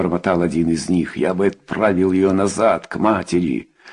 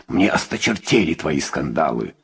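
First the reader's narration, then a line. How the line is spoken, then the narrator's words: Growl. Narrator (Russian): прорычал Хайме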